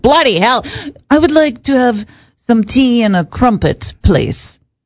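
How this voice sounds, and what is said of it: Put-on British accent. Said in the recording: “do stuff in an English accent ... That's my British accent.”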